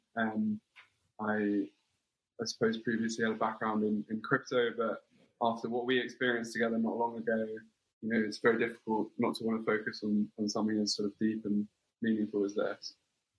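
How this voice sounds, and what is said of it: English London accent. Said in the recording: “you can probably tell by my accent that I'm English from London.”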